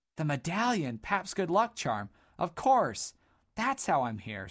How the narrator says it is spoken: said Dodd excitedly

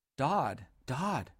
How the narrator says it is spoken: whispered Buller

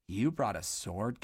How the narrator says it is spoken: gasped Boot

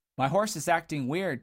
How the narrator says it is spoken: Dodd finally called out desperately, his voice quivering

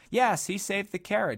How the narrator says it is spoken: exclaimed Mercy

